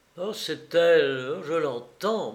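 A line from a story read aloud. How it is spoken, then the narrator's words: Stammering. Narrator (French): balbutia-t-il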